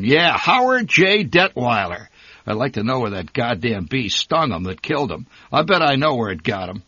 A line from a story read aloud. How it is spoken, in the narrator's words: roared